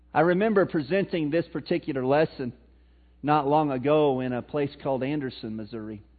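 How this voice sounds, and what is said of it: Missouri accent. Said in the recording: “in my Missouri accent”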